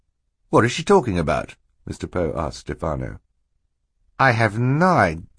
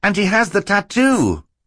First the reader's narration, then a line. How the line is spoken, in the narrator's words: Klaus cried